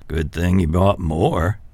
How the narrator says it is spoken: Dad said with a chuckle

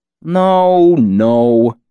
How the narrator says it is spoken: Jake grumbled

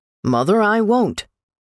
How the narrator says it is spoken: said firmly

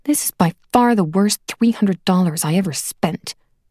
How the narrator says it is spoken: Gemma muttered

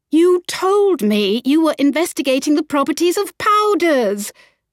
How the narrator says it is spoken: Violet cried

